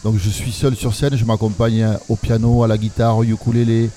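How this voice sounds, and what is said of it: Southern French Toulouse accent. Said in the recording (French): “moi, je suis de Toulouse, ça s'entend à mon accent ... J'assume tout à fait d'avoir cet accent quand je parle”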